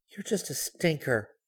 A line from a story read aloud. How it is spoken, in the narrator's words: murmured, all the fight gone out of her